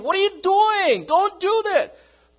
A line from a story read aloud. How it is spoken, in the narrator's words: yelling at him